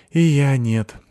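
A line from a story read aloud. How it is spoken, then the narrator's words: Sighing. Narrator (Russian): вздохнула Сыкиль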